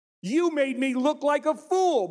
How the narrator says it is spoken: Balaam shouted

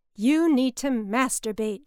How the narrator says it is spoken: she yells

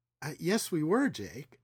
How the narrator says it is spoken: Natalie said in her most soothing voice

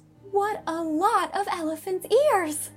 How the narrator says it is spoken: exclaimed Diana

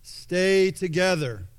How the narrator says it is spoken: Maximus shouts once more

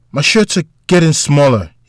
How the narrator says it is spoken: he exclaimed

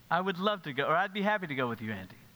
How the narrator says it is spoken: she quickly says

